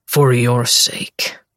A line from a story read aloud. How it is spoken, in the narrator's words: he growls